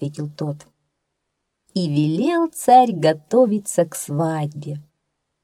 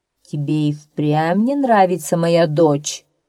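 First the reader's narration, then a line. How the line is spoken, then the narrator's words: Menacing royal question. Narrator (Russian): грозно спросил царь юношу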